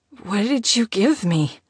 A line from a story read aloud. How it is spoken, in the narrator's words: She slurred